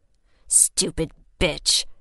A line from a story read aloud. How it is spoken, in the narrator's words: he muttered